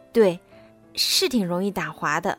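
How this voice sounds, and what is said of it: Quiet, soft-spoken line. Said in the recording (Chinese): “小声”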